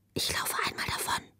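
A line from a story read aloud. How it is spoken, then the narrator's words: Whisper. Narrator (German): flüsterte sie ihr zu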